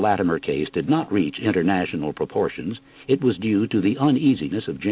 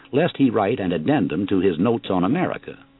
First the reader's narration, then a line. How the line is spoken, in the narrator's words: pleaded Pennington